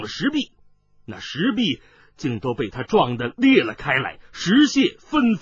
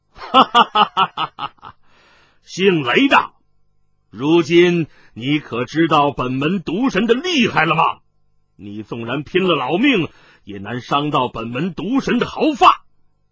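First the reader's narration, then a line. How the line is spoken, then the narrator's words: Loud laughter. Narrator (Chinese): 参毒大师哈哈大笑道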